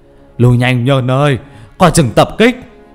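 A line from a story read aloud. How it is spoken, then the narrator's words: Calling out. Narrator (Vietnamese): Thầy Dương ngồi ở trong nhà kêu lên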